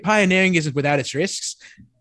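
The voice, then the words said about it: Put-on half British, half Irish accent. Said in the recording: “my half British, half Irish accent”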